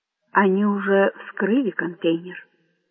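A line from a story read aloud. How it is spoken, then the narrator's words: Quiet. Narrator (Russian): тихо ответил министр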